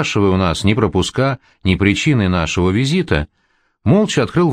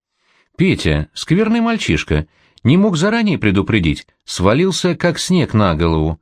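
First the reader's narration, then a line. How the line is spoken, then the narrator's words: Playful, flirtatious complaint. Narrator (Russian): жаловалась сестра Зуева, весело поблескивая глазами и кокетливо улыбаясь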